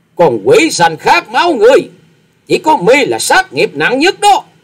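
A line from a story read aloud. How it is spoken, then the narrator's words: Furious shriek. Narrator (Vietnamese): Ni Ni đạo cô giận dữ thét to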